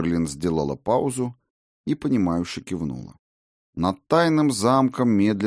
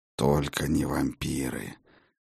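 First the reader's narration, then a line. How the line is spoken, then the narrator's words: Through gritted teeth. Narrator (Russian): процедил сквозь зубы Хедин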